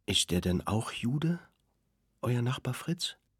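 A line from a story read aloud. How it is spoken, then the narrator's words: Very quiet question. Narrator (German): fragte Etta so leise, dass sich alle vorbeugen mussten, um etwas zu hören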